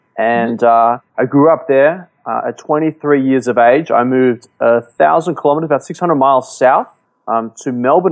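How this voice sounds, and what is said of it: Australian accent. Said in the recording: “I like the accent, man... So where in Australia do you hail from?”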